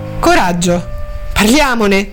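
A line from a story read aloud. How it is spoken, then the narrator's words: Defiant tone. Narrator (Italian): Allora Harriet, in tono di sfida, disse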